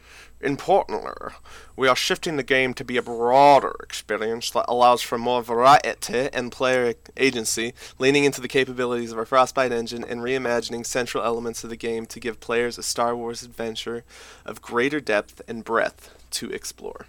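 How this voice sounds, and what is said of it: Deckard Cain voice shifting to British. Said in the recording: “I loved how it went from from Deckard Cain to British. ... I was not expecting the accent.”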